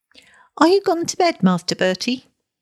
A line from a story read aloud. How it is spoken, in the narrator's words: she called out, oilily